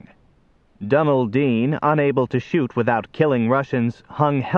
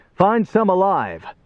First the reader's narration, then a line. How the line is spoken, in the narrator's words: Johnny shouted at him